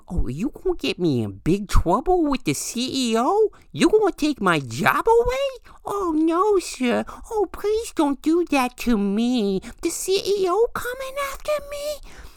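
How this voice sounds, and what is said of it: Mocking baby-like voice. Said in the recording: “in my baby Huey voice disparagingly”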